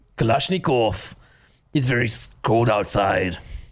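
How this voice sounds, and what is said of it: Put-on Russian accent. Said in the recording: “Do a Russian accent. ... This is me in my Russian accent.”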